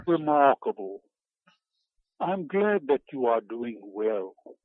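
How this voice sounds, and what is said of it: Put-on phony British accent. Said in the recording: “phony British accent”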